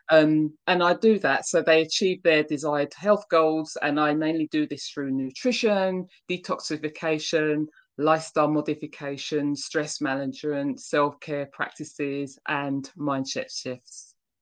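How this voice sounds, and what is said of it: British accent, London. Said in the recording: “your accent. So it's clear to my audience that you're not from the United States ... I'm based in London, England, and I was born and bred there.”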